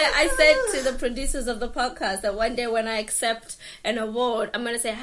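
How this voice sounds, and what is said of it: Usual voice. Nothing is said of it.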